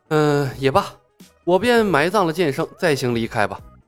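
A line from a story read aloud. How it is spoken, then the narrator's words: Sighing. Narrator (Chinese): 剑臣叹道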